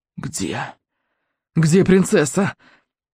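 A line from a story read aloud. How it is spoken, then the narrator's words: Hoarse, breathless, failing voice. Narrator (Russian): Голос изменил ему, он хрипел и задыхался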